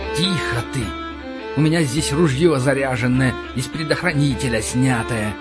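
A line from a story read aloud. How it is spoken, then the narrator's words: Hissed. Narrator (Russian): прошипел я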